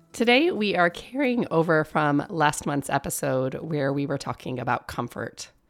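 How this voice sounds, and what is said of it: Hoarse voice, sounds different than usual. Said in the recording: “I am recovering from a long-lasting case of laryngitis, which is why my voice sounds a little different than usual.”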